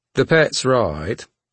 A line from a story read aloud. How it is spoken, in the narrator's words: said his lordship in a bored yet pleasant voice